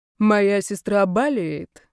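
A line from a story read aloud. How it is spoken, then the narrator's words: Muffled reply. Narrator (Russian): глухо отвечал мужчина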